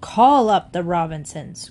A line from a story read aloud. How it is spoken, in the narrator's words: growled Mr